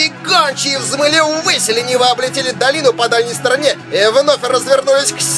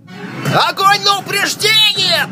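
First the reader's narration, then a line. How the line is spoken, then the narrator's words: Shouting. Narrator (Russian): прокричал Рейнер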